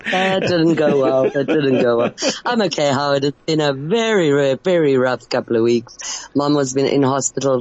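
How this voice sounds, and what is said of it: Deep, rough voice from illness. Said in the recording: “I sound like a man. ... we picked up some serious bug”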